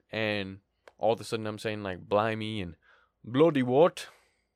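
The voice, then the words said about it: Poor put-on British accent. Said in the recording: “That's not a good accent. I can actually do a good British accent.”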